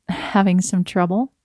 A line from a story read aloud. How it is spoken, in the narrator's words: laughed